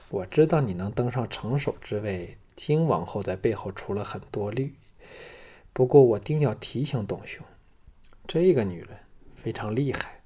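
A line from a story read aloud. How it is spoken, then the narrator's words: Sighing. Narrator (Chinese): 龙阳君叹道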